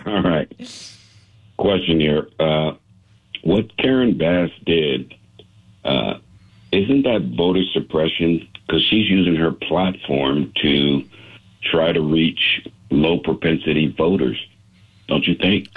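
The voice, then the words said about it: Good radio voice. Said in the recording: “You have an incredible radio voice, my friend ... you have a good voice for radio”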